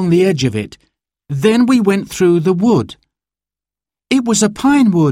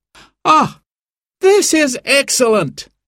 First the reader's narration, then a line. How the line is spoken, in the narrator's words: he cried